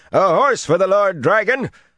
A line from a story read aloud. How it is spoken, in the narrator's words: the man shouted